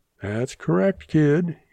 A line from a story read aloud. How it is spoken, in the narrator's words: he chuckled